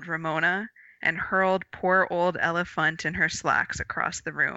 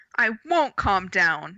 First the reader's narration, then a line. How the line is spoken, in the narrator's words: shouted Ramona, bursting into tears